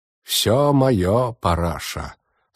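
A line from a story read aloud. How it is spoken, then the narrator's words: Solemn voice. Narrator (Russian): сказал он торжественным голосом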